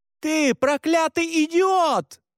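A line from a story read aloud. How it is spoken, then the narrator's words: Woman shouting. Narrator (Russian): кричала женщина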